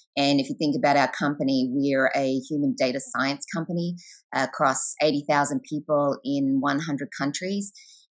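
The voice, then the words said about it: Australian accent. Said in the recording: “based in New York and Australian prior to that. So you can hear that by the accent.”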